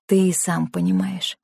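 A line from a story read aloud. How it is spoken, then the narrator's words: Soft. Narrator (Russian): мягко ответила Клара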